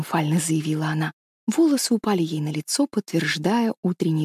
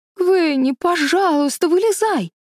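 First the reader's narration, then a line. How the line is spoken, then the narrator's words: Pleading. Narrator (Russian): взмолилась Мэриголд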